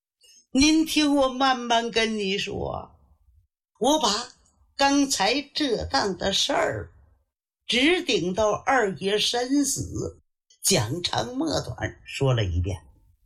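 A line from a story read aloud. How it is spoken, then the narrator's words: Crying. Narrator (Chinese): 宋慈止不住哭声了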